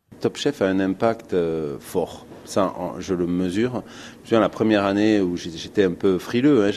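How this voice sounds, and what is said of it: Sing-song Toulouse French accent. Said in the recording (French): “son petit accent chantant. Le chef toulousain”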